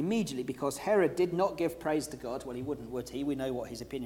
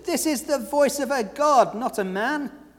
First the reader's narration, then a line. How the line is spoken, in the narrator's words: The people shouted